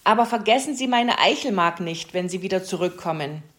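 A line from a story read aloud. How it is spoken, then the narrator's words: Calling after someone. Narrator (German): rief ihr Herr Fuchs hinterher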